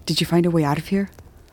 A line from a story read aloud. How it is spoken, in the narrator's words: trying not to be overheard, and whispers